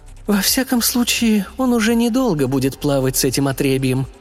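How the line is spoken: Joyful sigh, mother. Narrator (Russian): радостно вздохнула родительница

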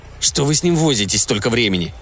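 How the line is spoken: Grumbling. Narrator (Russian): проворчал Энглси

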